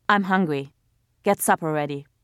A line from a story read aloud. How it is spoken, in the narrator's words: he said in a brusque voice